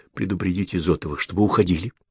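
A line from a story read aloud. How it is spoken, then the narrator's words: Quick whisper. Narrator (Russian): быстрым шепотом проговорила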